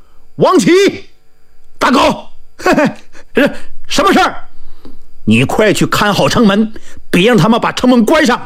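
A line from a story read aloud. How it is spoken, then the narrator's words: Loud shout. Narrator (Chinese): 他大喊一声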